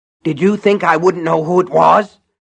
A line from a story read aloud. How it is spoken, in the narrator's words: Buster Keaton was grunting